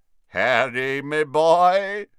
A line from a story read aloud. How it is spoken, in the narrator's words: said a booming voice